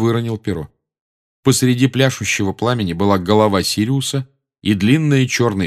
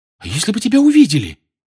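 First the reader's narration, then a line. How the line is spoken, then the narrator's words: Frightened question. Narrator (Russian): испуганно спросила Гермиона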